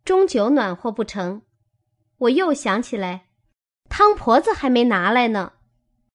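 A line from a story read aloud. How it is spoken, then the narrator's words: Laughing. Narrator (Chinese): 晴雯笑道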